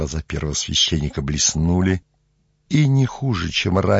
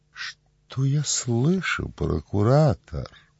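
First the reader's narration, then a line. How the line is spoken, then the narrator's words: Proud, calm reply. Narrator (Russian): Гордо и спокойно ответил Каифа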